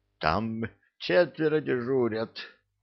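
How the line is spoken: Hoarse trembling whisper, big man. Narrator (Russian): хрипло прошептал верзила, трясясь всем телом

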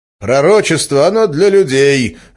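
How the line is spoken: Barking teacher. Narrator (Russian): рявкнул учитель

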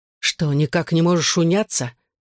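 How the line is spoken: Angry question. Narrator (Russian): сердито спросил Джонни

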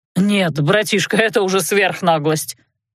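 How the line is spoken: Indignant exhale. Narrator (Russian): Возмущенно выдохнул принц Бернард

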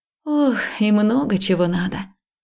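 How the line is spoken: Sighing. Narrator (Russian): вздохнула

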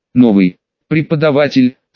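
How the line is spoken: Forced angry words. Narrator (Russian): Снейп выдавил это зло

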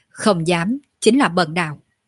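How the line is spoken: Smiling, raised voice. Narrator (Vietnamese): Tiêu Dao tự mỉm cười rồi cất cao giọng nói

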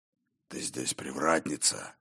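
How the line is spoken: Near growl, not angry. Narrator (Russian): Почти прорычал он, но не от гнева

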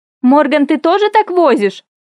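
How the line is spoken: Loud shout. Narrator (Russian): крикнула я громко, чтобы он точно расслышал

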